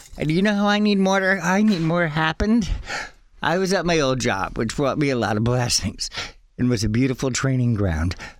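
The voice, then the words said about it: Out of breath, excited speech. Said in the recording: “I'm getting so out of breath because I'm so into this.”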